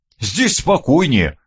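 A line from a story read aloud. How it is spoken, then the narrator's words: Amused snort. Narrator (Russian): хмыкнул Леонид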